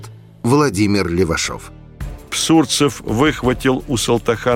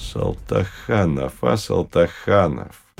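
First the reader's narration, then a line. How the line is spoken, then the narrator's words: Ingratiating, insinuating. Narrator (Russian): вкрадчиво сказал Псурцев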